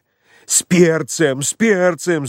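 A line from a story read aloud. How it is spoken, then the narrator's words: Desperate shout. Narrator (Russian): закричал он отчаянным голосом, заметив, что дьякон ест фаршированные кабачки без перца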